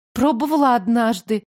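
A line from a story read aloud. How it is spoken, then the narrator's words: Uncertain. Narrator (Russian): неуверенно отозвалась я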